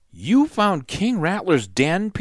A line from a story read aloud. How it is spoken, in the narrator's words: Peter gasped